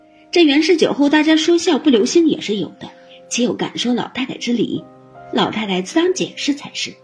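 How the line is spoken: Laughing, coaxing. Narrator (Chinese): 王夫人等因笑劝道

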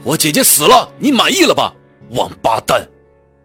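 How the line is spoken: Sudden shout. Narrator (Chinese): 我突然朝他吼道

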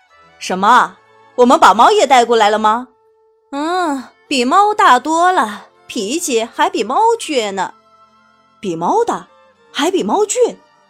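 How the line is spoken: Laughing father. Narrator (Chinese): 爸爸笑着说

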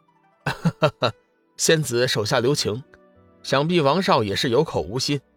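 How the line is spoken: Smiling. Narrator (Chinese): 龙宇微微一笑，道

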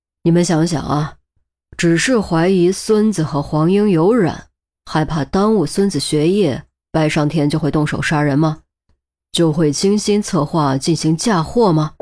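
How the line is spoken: Deep grave voice. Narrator (Chinese): 陆明沉声道

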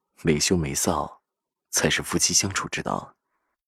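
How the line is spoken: Low, soft voice. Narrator (Chinese): 低声说着

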